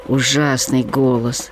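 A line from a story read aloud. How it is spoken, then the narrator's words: Sighing. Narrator (Russian): вздохнули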